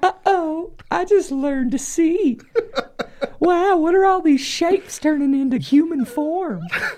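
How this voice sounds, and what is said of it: Southern-accented baby voice. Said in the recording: “in a baby voice ... That was a southern baby voice.”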